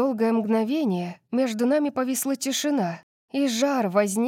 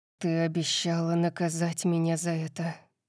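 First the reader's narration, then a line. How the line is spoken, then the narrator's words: Muttered. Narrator (Russian): пробормотал Калеб в конце концов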